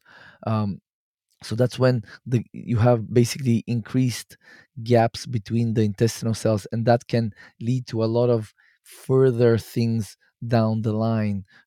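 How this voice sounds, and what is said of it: Slightly hoarse voice. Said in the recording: “my voice is a little bit hoarse”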